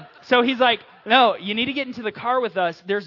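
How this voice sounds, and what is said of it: Usual voice. Nothing is said of it.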